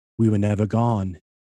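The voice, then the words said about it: British accent imitating another person. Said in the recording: “here comes my British accent.”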